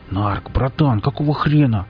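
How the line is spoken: Angry hiss. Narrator (Russian): зашипел Лом, так тупо уронивший автомат и жутко из-за этого злой

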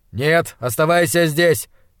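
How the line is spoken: Shouting. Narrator (Russian): крикнул он

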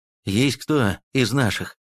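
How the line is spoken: Weary, hiding joy. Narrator (Russian): Не подавая виду, что обрадовался, устало проговорил Аникин

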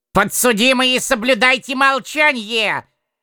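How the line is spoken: Distant stern shout. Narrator (Russian): Издалека с судейского кресла прикрикнул суроволикий прилад

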